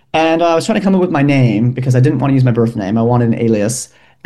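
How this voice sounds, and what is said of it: American Midwestern accent. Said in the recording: “am I detecting an accent? ... Yes, I'm from Milwaukee, Wisconsin.”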